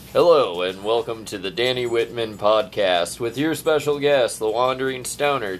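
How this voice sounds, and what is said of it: Announcer-style introduction voice. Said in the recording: “In your best introduction voice”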